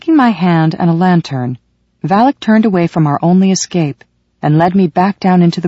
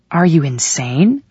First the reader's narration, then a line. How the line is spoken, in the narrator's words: whispered